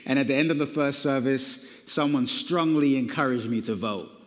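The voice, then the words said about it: British accent, slightly Americanized. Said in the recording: “the accent that you're picking up is a British accent ... there's like a little bit of that. Is that South African, Australian, British?”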